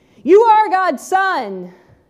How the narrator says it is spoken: They screamed

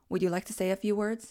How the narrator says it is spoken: she asked

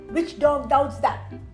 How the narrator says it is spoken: Now Rajam flared up and shouted

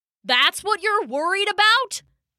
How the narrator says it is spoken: bellowed Thor

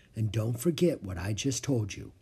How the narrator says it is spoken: Morgan said softly

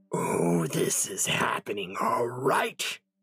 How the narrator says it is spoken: the snarling thing replied

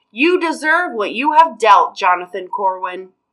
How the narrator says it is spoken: I yelled

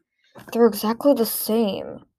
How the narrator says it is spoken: she muttered

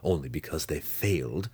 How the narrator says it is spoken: Zack whispered to Drizzt

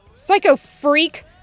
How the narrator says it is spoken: Tucker yells

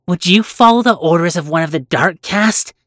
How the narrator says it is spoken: Willa snapped

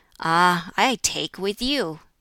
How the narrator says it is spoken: drew in his breath, sighed, and exclaimed

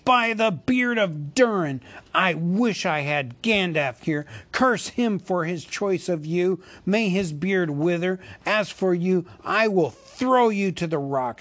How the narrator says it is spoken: he cried

